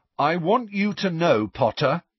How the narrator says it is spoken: he said in a loud, carrying voice

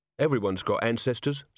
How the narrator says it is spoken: said the barman calmly

